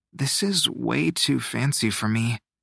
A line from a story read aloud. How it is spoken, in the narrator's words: Shio murmured